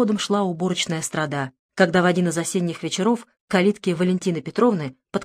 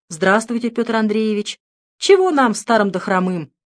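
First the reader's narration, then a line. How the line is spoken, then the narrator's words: Cheerful joking. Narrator (Russian): весело отшутилась Петровна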